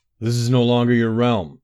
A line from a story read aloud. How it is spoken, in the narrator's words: bellowed